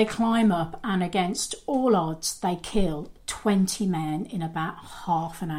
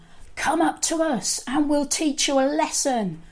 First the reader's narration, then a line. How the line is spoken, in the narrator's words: the Philistines shout out to them